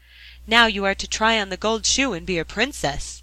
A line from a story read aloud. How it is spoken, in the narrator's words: said the other servants, and they laughed at her and mocked her